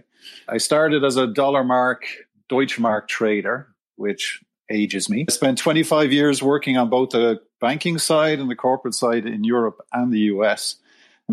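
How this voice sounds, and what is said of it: Irish Dublin accent. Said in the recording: “I'm from Dublin, Ireland. My accent probably gives it away.”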